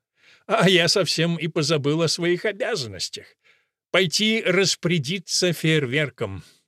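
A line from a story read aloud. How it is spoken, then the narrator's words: Cheerful, smiling. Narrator (Russian): вдруг улыбнулся, и глаза засмеялись, и он сказал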